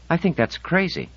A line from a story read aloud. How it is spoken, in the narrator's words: she said, her voice choked in disbelief